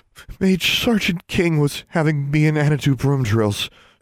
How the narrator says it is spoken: she gasped, trying not to let the pain show in her face

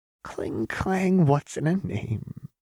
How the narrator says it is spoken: Jinx sang the words brokenly

